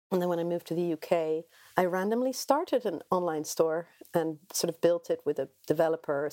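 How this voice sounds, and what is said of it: Caribbean-influenced accent. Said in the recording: “I grew up in the Caribbean, which is my sort of weird accent”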